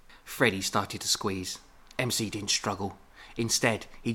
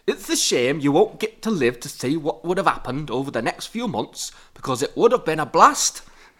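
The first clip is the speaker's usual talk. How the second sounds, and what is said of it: Poor put-on Yorkshire accent. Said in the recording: “I am very sorry to anyone from Yorkshire who is listening to this, and any human who was just genuinely offended by that accent.”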